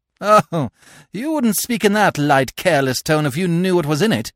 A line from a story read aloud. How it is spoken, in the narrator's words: I said with a hollow, mirthless laugh